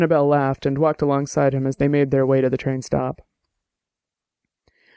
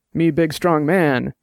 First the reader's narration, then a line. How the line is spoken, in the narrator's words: Dex said, and grunted